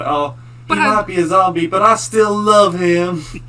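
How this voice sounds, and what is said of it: Country bumpkin accent. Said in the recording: “She did not have a country accent. ... I put on a bumpkin accent”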